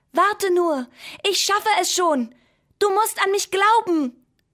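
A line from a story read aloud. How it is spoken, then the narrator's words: Calling out. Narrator (German): der Bleistift rief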